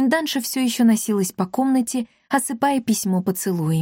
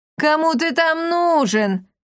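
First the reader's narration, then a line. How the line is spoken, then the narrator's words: Mocking burst of laughter. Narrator (Russian): расхохоталась она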